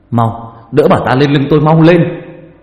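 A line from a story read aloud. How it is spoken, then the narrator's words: Shouted loudly. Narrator (Vietnamese): Ông Ninh hét lớn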